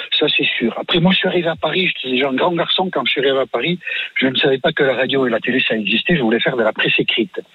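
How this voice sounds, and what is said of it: Distinctive regional French accent. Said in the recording (French): “avoir un accent ... si vous n'aviez pas eu cet accent ... on jouait beaucoup sur votre accent ... vous singez aussi sur votre accent. C'est une vraie particularité”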